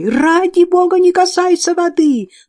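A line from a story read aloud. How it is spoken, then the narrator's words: Yelling while running. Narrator (Russian): на бегу вопила она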